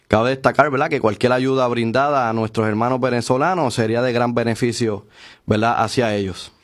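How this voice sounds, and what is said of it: Professional announcer-style voice. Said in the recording (Spanish): “tiene voz de locutor”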